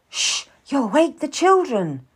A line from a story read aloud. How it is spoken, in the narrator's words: cried out, rather loudly